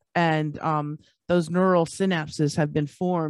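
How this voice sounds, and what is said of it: Usual voice. Nothing is said of it.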